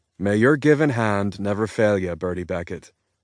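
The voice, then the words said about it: Put-on Irish brogue. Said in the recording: “I offer as a toast in my finest Irish brogue.”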